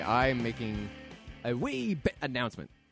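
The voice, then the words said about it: Brief put-on Scottish-English accent. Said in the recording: “Some sort of weird English, Scottish accent that really has nothing to do with anything”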